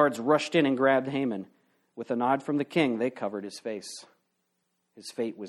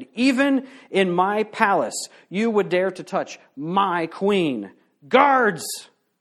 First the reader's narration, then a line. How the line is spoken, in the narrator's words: shouted